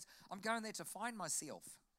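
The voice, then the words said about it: Put-on New Zealand accent. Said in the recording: “that's a Kiwi accent, in case you're wondering. The Kiwi accent is very different to the Australian accent.”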